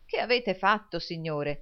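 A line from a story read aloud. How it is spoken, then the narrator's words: Exclaimed. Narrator (Italian): esclamò il signor Lillywick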